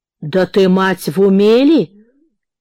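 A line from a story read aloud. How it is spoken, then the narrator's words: Loud laughter. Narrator (Russian): И захохотал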